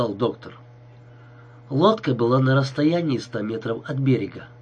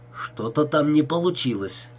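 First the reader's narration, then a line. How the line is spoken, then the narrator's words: Muttering. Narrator (Russian): пробормотал босс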